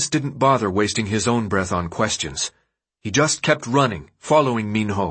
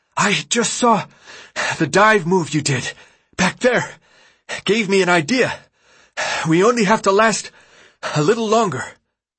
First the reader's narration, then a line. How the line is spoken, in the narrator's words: Between heaving breaths, he gasped